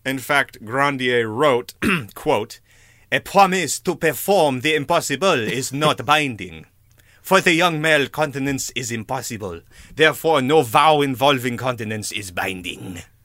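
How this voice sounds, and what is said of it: Put-on French accent. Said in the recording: “Three baguettes out of three baguettes for that impersonation ... I never practice a French accent.”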